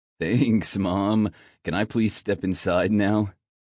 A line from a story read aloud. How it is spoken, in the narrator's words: Finn laughed